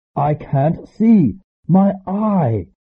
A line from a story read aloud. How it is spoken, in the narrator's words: Gork roared